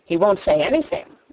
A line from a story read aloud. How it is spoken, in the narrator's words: Colin answered